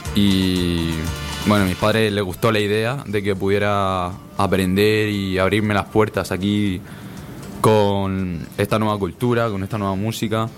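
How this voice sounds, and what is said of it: Good radio announcer voice. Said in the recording (Spanish): “¿Tienes una voz sosa? ... tienes una voz de locutor, tienes una buena voz ... Tienes una muy buena voz”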